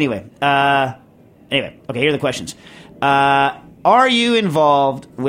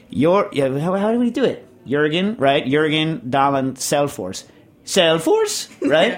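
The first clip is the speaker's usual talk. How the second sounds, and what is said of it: Imitated Swede doing Norwegian accent. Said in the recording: “my imitation of Nils doing a Norwegian ... Swedish Nils's imitation of a Norwegian accent”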